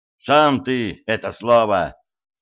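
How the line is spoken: Intern growling. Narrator (Russian): рыкнул на него стажер

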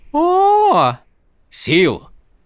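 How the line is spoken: Exclamation. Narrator (Russian): воскликнул Каладин

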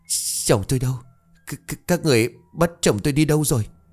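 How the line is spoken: Scared, trembling voice. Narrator (Vietnamese): tuy sợ nhưng cố gắng hỏi bằng giọng run rẩy

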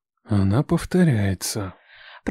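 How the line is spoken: Whispering in ear. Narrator (Russian): прошептал мне на ухо Лев

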